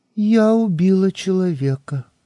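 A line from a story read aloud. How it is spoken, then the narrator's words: Calm, over the phone. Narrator (Russian): сказала я в трубку спокойным голосом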